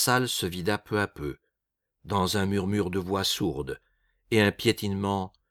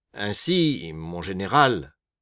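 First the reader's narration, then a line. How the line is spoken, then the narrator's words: Cold. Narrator (French): dit Pellegrin froidement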